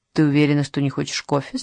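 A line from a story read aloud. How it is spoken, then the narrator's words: Plain. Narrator (Russian): спросил ее Лукас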